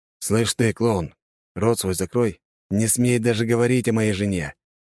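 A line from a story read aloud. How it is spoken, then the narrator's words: Hissed threat. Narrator (Russian): прошипел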